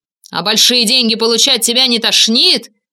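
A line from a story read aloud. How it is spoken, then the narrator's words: Furious shouting. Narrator (Russian): яростно кричал Черновский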